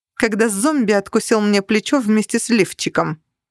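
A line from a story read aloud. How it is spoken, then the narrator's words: Snapping back. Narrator (Russian): огрызнулась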